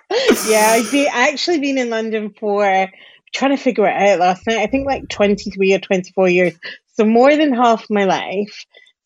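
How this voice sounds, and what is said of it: Soft Scottish Glasgow accent. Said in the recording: “Do I hear a Scottish accent in there? ... my accent is definitely softer than it would be if I was living in Glasgow”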